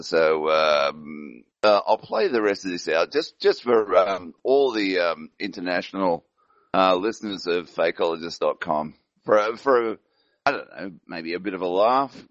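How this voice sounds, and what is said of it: English accent. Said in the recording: “Ab loves my accent ... I'm a bloody pom”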